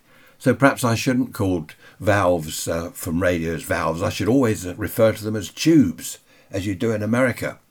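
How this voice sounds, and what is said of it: British accent. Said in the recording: “they like our British accent”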